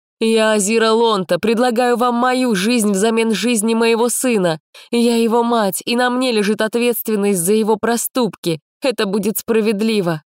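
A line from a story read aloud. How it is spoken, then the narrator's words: Loud declaration. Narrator (Russian): громко заявила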